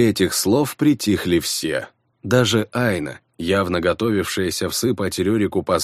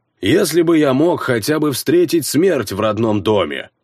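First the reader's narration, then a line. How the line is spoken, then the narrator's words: Barking. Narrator (Russian): рявкнул Рерик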